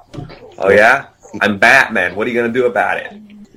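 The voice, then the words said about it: Ben Affleck Boston accent impression. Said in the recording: “Ben Affleck? ... And his Boston accent.”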